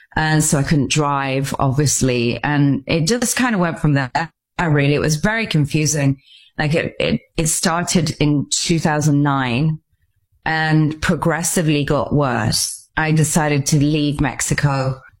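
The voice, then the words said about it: English accent. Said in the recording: “I'm obviously from Stratford-upon-Avon in England. You can tell by my accent.”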